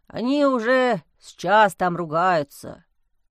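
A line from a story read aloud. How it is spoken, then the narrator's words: Sighing. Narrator (Russian): вздохнул стоящий рядом садовник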